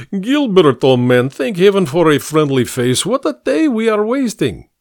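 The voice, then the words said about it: Thick, hard-to-place foreign accent. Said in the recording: “The man's thick and hard-to-place accent”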